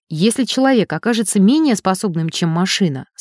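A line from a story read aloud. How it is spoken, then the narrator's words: Calm. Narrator (Russian): спокойно сказал Элик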